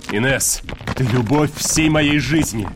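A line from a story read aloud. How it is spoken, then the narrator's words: Barking. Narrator (Russian): рявкнул Вит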